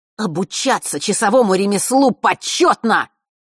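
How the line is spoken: Shouting out. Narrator (Russian): выкрикнул он

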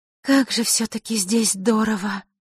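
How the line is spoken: Breathless exclamation. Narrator (Russian): Не сдержавшись, выдохнула Василиса

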